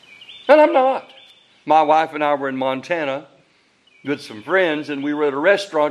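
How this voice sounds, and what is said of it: Southern American accent. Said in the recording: “you still have that Southern accent ... I'm planning on keeping my Southern accent”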